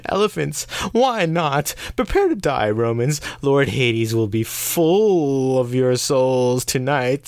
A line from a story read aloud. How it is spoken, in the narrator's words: The necromancers let out a cackling, almost unnatural laugh and point at the Romans and cry